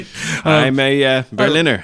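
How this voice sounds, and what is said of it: Imitates another person's voice. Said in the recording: “Kennedy impersonation ... That's close.”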